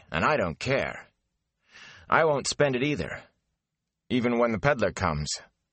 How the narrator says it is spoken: Matt said firmly

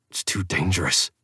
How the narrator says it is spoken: I muttered

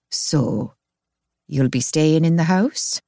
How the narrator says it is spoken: she asked in that peculiar tone

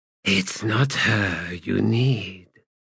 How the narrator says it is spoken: Came an answering whisper

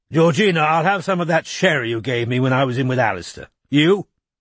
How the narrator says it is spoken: he barked

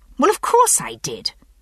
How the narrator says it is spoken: I said a little sharply

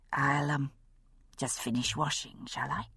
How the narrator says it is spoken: murmured

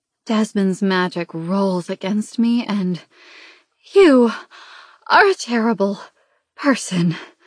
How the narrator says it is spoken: I gasp out, the words broken

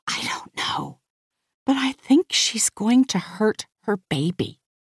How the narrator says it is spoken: I whisper

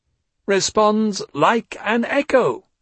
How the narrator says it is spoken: he said triumphantly

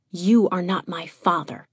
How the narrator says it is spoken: she'd hissed

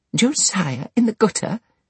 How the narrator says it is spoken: exclaimed Mrs

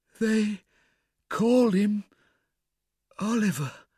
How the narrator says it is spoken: replied the woman feebly

